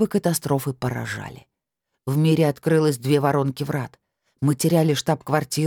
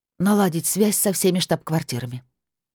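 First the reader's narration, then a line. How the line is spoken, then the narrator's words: Hoarse order. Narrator (Russian): приказала я сипло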